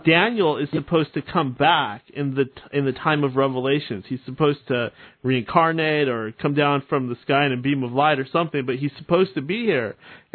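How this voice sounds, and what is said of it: Loud, yelling voice. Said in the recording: “you should stop yelling”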